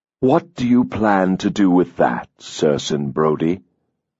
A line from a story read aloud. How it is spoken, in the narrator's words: the fairy asked stiffly